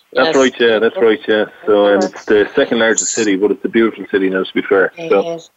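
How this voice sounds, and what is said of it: Irish accent. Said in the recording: “all the way from Ireland. I love that beautiful accent.”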